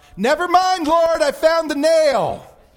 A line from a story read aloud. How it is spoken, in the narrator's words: called out